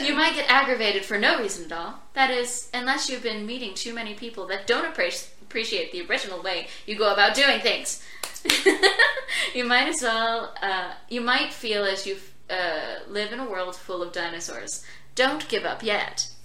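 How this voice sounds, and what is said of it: Smooth announcer voice. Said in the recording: “my announcer voice ... It's the delivery. It was very smooth.”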